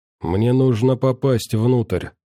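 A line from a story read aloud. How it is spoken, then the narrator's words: Quiet. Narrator (Russian): тихо произнес он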